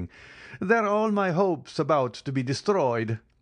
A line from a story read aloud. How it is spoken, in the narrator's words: said, laughing